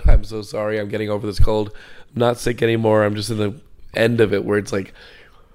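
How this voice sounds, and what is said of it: Raspy voice. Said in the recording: “your throat is all raspy because it's been ravaged for a week”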